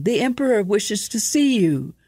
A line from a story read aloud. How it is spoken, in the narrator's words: called the servant, hands cupped into his shouting mouth